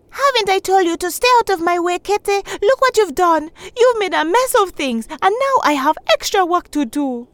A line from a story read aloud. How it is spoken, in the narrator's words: Out of frustration, Shindo yelled out